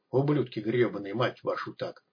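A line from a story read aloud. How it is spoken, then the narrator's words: Quiet, in Russian. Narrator (Russian): добавил тихо на русском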